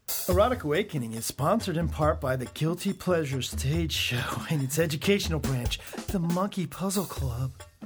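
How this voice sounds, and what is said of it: Put-on sexy voice. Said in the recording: “Does my sexy voice make you laugh?”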